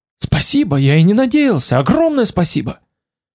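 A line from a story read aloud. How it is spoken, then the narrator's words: Fiery exclamation. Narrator (Russian): Он воскликнул воспламененно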